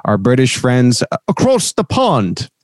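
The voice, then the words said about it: Poor put-on British accent. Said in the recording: “terrible British accent right there as I just tried to do that”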